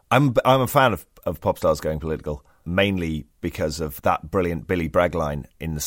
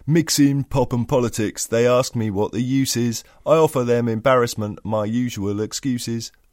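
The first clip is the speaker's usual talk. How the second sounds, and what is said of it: Poor imitation of a singer's voice. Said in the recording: “That was a really bad Billy Bragg impression.”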